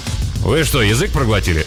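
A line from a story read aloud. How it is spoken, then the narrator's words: Irritated question. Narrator (Russian): снова раздраженно спросила она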